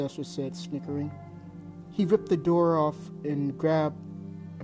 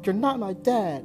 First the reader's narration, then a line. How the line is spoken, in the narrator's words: the kid exclaimed